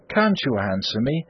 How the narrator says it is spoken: said Wildeve warmly

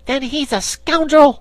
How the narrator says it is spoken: cried the little dog

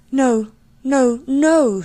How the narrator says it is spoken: cried, hiding her face

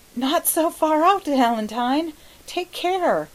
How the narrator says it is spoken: he gasped

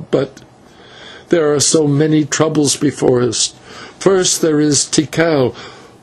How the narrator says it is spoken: answered with a sob

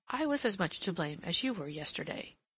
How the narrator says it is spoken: she said gently

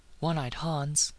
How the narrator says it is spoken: he breathed

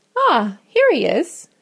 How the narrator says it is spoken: she exclaimed

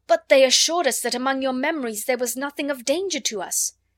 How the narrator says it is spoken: cried out, shaking

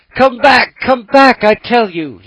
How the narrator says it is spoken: he cried, stamping his foot

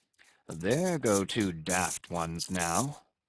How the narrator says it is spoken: muttered the old Manxman

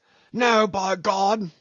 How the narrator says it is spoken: shouted Brown suddenly

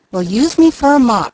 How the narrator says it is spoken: cried Mickey

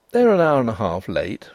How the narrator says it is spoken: said Denry calmly

